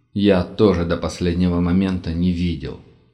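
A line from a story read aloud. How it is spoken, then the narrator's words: Heavy sigh. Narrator (Russian): Тяжело вздохнул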